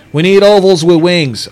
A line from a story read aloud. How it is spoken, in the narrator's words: I heard Kevin shout